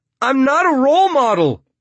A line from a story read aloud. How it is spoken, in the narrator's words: Lev yells